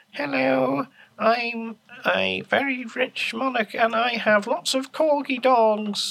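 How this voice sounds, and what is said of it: Imitates a queen's regal voice. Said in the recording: “that impression ... It was the Queen.”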